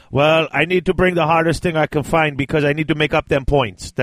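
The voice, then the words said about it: Poor imitation of another person's accent. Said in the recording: “That was a terrible Meal impression. ... I can't do that accent.”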